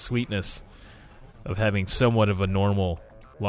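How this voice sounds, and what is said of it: Usual voice. Nothing is said of it.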